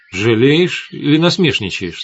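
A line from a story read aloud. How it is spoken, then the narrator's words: Plain. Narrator (Russian): спросила она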